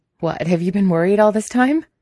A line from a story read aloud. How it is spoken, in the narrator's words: He laughed at this, as if the idea is ridiculous